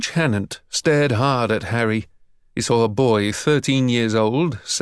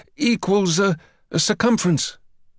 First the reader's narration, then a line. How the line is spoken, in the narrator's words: Hammy stuttered